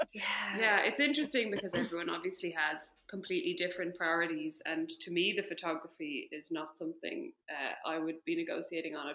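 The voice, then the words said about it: Speaks with a pleasant accent. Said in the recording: “I love how you say that so nicely in your lovely accent.”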